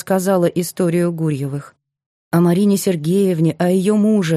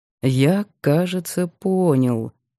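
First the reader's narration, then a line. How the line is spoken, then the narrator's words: Slow. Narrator (Russian): медленно сказал он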